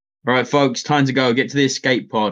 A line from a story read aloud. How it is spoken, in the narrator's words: I shout to everyone